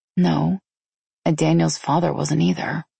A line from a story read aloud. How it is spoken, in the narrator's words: I said softly